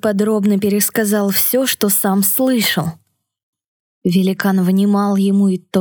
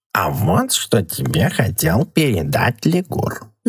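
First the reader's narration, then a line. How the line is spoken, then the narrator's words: Purring cat. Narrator (Russian): замурлыкал кот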